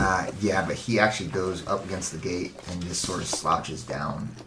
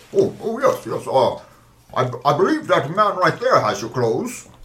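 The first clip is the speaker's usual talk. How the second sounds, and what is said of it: Weird character voice. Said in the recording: “weird voice”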